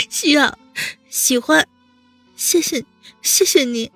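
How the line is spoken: Tearful, happy, incoherent. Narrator (Chinese): 温之夏眼泪还挂在脸颊上，扬起了一个大大的笑容，语无伦次地说

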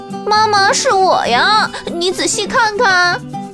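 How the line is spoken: Kitten calling out. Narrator (Chinese): 小花猫叫道

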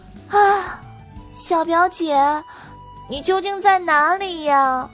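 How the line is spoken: Sighing. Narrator (Chinese): 糖糖叹了一口气

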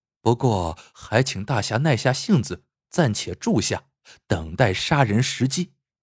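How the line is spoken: Soft woman's voice. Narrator (Chinese): 那女子轻声说

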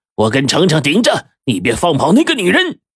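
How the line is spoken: Shouting. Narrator (Chinese): 黄队就大叫

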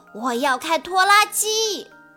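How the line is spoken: Loud shout. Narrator (Chinese): 鲁鲁大喊

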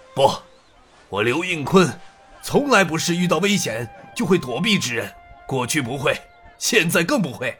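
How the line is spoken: Deep, resolute voice. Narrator (Chinese): 刘应坤沉声坚决地说道

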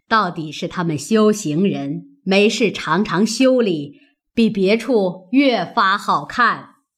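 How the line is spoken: Laughing. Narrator (Chinese): 贾母笑道

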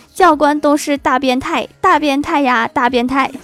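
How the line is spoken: Clear ringing shout. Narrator (Chinese): 教官宿舍里就响起一阵清脆的叫声

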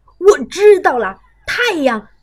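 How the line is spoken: Excited shout. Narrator (Chinese): 老鼠村长跳起来，大叫

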